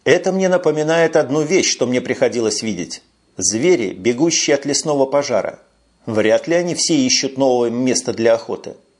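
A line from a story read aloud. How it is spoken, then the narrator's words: Plain. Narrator (Russian): ответил Макнейл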